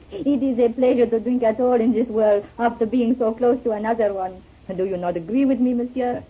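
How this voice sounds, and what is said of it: French accent. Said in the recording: “You're French, aren't you? ... Without that accent, your voice would be very like another I used to know.”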